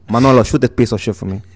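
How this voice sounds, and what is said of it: Tony Montana Scarface character voice. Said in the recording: “your best famous person impression ... I'm Tony Montana from, I'm a political prisoner from Cuba ... That's Scarface”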